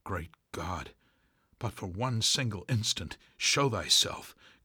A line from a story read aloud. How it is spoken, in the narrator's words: cried Starbuck